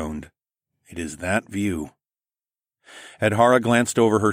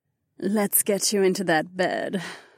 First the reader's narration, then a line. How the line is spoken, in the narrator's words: Kat purred